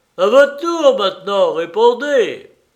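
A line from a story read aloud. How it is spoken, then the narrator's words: Booming shout. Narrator (French): George Barton lui cria d'une voix de stentor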